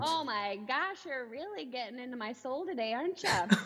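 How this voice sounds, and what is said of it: Minnesotan accent, drawn-out vowels. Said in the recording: “My Minnesotan accent just came out too. My God. It's all the vowels.”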